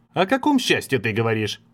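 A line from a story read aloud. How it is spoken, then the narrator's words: Irritated snapping. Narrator (Russian): С досадой огрызнулся Лоякона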